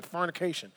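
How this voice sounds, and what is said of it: Deep Southern US accent. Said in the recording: “You gotta say that with a deep southern accent ... You gotta say that real tough”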